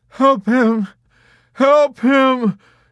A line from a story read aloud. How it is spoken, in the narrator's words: Dobbs was sobbing